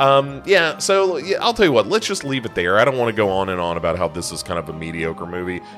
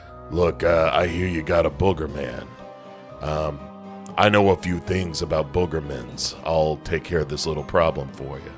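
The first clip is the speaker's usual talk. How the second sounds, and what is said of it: Imitates another person's voice. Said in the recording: “that's my impression of Mark Hamill in House of Usher”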